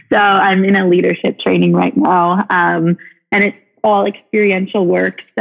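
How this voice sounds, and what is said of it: Hoarse, nearly lost voice. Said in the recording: “lost your voice”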